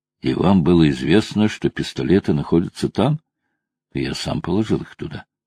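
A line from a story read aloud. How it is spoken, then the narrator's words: Calm voice. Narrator (Russian): спокойным голосом произнес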